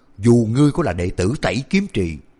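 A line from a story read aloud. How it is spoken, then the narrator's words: Angry shout. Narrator (Vietnamese): Tu sĩ quyền giáp kia thoáng sững sờ, lập tức mặt đầy nộ khí quát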